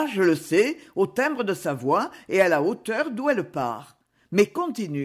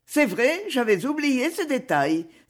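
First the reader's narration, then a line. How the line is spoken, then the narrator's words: Exclaiming. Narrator (French): s'exclama Lucie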